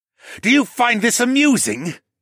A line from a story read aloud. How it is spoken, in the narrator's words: Rocco snarled